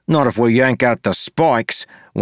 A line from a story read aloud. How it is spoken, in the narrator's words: Wayne snapped